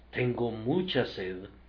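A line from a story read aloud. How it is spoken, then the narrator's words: Feverish murmur. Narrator (Spanish): tus labios enfebrecidos murmuren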